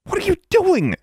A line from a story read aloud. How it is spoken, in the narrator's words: she snapped